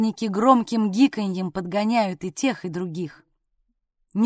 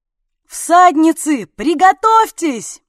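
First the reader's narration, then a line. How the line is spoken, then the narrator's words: Shouting while diving. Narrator (Russian): пикируя вниз, крикнул Орлик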